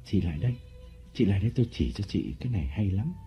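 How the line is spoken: Whisper. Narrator (Vietnamese): Lộc thì thầm

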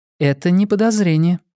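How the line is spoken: Calm objection. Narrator (Russian): спокойно возразила Гладстон

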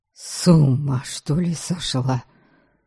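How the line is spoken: Grumbled. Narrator (Russian): буркнул Харальд

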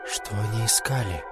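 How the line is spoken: Quiet question. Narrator (Russian): тихо спросил я

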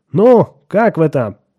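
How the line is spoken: Joyful group yelling. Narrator (Russian): Отто, Грег и Джоан радостно завопили

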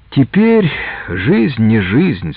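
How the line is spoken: Innkeeper speaking, sighing. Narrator (Russian): сказал корчмарь и вздохнул

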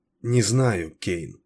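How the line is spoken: Uncertain mutter. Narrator (Russian): неуверенно пробормотала она

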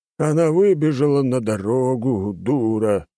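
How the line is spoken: Man grumbling. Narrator (Russian): проворчал мужчина-врач

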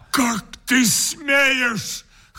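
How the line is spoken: Hoarse shout, heavy breathing. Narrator (Russian): хрипло закричал мой друг, побледнев и тяжело дыша

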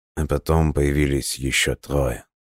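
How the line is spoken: Quiet. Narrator (Russian): тихо добавил владелец алмазных рудников Франсуа Мерсье

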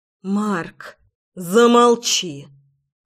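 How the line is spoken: Growled. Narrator (Russian): рыкнул

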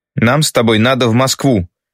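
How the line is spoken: Even and loud. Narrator (Russian): так же ровно и громко говорит это Мишель

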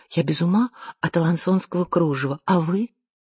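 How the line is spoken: Quiet girl's voice. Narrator (Russian): одна девица тихонько сообщила другой

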